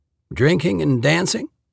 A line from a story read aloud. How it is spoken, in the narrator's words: She huffed a laugh